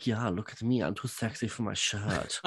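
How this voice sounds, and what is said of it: Put-on accent, mocking vain voice. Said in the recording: “That's a really good accent.”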